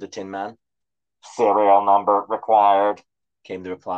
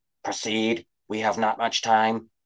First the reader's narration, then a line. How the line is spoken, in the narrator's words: Tin Man whispered to Shay